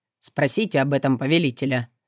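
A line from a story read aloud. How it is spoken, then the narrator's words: Dry reply, ghoul. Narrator (Russian): сухо отозвался упырь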